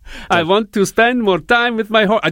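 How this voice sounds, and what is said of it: Put-on Russian accent. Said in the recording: “I do a Russian accent every time I do that ... Dracula”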